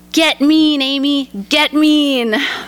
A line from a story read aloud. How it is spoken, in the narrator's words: dad starts yelling